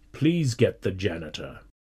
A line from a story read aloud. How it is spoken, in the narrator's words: he said quietly